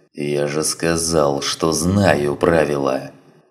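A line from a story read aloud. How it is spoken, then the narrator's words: Growling. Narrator (Russian): прорычал Грото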